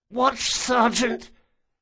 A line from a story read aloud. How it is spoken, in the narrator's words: Bug hissed thickly, letting more blood spill out over his lips